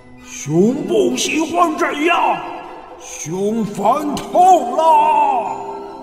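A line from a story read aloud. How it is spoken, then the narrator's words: Angry roaring bear. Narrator (Chinese): 熊生气了，非常生气，大声吼叫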